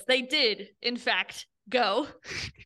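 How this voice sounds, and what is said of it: Mock documentary narrator voice. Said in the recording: “Narrator voice”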